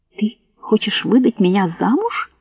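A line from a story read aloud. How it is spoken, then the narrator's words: Tearful whisper. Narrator (Russian): прошептала Соня, вытирая слезы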